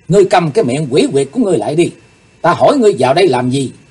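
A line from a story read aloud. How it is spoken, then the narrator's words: Angry. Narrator (Vietnamese): Càng thêm tức giận, Chí Tôn nói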